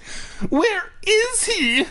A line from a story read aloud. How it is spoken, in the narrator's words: I cried shrilly like a little bitch